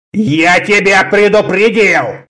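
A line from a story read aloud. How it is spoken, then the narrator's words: Growling. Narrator (Russian): зарычал Конан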